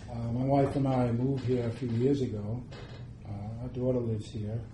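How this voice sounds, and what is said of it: New York accent. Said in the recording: “Actually, I'm a New Yorker. I think you can tell by my accent.”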